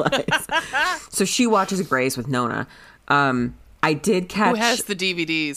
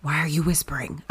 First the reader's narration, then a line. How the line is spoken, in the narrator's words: Nona whispers